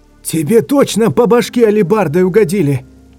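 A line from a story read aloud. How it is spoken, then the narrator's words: Spluttering shout. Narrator (Russian): кричал, брызгая слюной, седьмой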